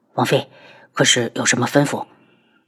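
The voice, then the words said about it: Quiet, hushed question. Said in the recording (Chinese): “小声问道”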